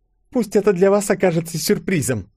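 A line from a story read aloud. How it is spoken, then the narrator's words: Sly, snide tone. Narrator (Russian): ехидно улыбнулась ежик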